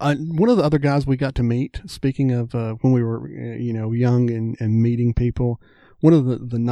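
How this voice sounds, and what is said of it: Usual voice. Nothing is said of it.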